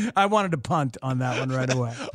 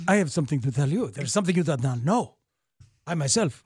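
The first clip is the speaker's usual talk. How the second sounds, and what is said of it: Bad Inigo Montoya accent impression. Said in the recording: “that's a terrible accent ... was a terrible Indigo Montoya ... That was one of the worst I've ever heard.”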